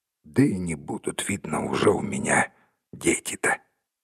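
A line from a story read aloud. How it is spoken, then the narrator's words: Quiet sorrowful speech. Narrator (Russian): горестно и тихо произнес Кармадон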